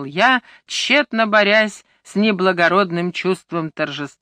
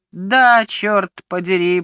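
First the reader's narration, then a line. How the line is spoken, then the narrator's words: Grumbling. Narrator (Russian): пробурчал Лео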